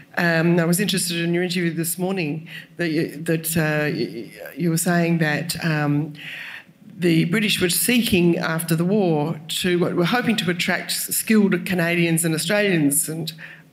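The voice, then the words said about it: Australian accent. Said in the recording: “You can tell by my accent that I'm not from here. ... From being an Australian”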